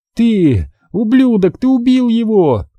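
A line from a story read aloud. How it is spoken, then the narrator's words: Hateful, faltering scream. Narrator (Russian): закричала Кэролайн, пытаясь вложить в свой голос как можно больше ненависти, хотя язык почти не слушался ее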